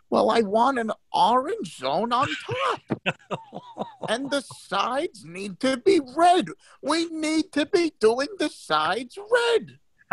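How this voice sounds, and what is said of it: Imitates another person's voice. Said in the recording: “That's a good impersonation.”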